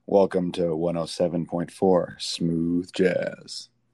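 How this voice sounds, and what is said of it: Low, velvety, husky radio DJ voice. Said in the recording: “my sexy DJ voice ... Oh, that's velvety ... laryngitis or something ... getting your voice back, where your voice kind of sounds cool ... like the Lauren Bacall mid-50s actress who's like smoking all the time”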